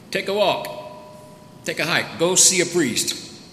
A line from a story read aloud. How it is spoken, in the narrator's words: Jesus shouted back across the way